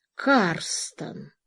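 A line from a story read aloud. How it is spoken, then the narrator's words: Repeated. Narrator (Russian): повторил он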